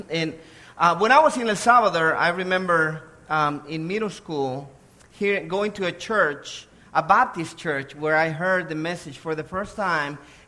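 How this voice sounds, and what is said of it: Salvadoran Spanish accent. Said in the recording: “I was born in El Salvador. That's where the accent comes from.”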